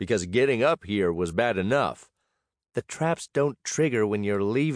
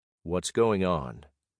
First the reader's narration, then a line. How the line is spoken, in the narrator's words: said gently